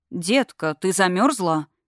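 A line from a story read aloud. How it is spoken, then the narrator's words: Soft question. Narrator (Russian): мягко спросил Кейгер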